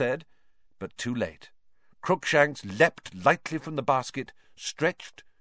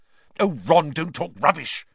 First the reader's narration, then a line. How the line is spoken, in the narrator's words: snapped Hermione